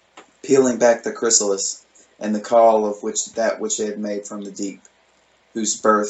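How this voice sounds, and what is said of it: Usual voice. Nothing is said of it.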